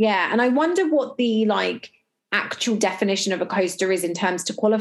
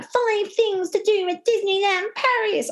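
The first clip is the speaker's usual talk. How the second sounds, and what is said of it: Impression of Disney hotel TV host. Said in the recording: “good impression of her”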